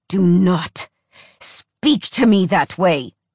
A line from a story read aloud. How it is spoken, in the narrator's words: he hissed